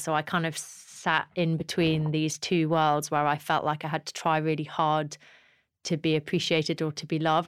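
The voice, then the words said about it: Posh English accent. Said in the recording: “I was born a Geordie and then I faked a posh accent, which is now the way I speak”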